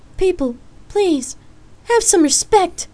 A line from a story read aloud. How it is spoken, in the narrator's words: She shouted